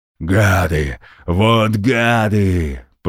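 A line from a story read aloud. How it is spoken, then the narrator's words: Growling dwarf. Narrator (Russian): прорычал дворф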